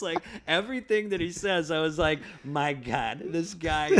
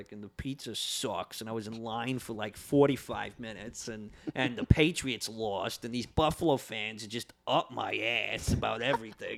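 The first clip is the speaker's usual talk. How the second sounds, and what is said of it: Imperfect put-on Boston accent. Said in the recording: “excuse my Boston accent, it's not going to be perfect”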